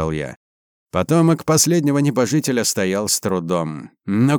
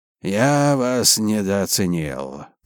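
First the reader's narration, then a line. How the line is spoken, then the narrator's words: Hoarse rasp. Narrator (Russian): прохрипел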